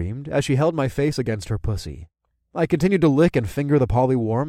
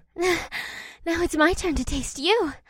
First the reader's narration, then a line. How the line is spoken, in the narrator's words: Leah said through a few gasps